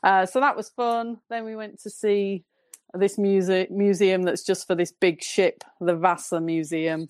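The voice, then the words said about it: Northern English accent. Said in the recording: “Excuse my northern accent.”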